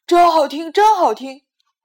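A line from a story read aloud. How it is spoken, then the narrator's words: Loud. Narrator (Chinese): 爸爸大声的说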